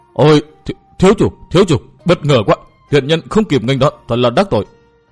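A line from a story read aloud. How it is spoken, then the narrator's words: Trembling, fearful and glad. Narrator (Vietnamese): ông ta vừa nể sợ vừa mừng rỡ vội vã, giọng run run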